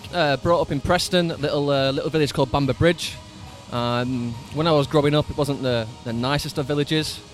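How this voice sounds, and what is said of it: Northern English Lancashire accent. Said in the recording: “they love the accent ... Whereabouts in the UK are you from to come with an accent like that? ... northern part of the UK, preferably now profound as this Lancashire accent here.”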